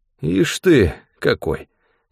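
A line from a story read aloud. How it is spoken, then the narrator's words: Affectionate. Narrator (Russian): говорил он ласково чурбаку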